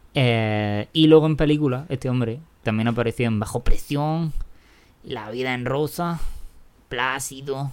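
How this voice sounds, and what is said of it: Poor put-on Mexican accent. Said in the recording (Spanish): “Lo estoy diciendo todo con acento mexicano ... Que te queda como el culo”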